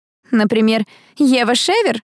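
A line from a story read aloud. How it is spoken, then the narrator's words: Laughing. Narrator (Russian): рассмеялся кто-то из его друзей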